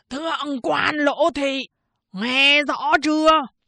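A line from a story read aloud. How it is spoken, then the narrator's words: Roar through megaphone. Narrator (Vietnamese): Miệng loa vẫn chĩa ra ngoài lỗ hồng trên tường, gầm lên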